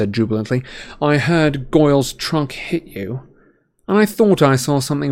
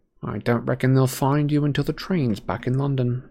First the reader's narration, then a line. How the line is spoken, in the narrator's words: he said quietly